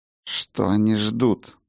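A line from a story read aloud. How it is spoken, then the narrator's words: Through gritted teeth. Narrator (Russian): процедил сквозь зубы Хаген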